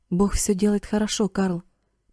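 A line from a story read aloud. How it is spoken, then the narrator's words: Whispered. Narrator (Russian): прошептал он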